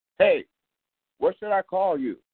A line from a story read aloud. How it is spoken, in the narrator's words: The older boy hollered out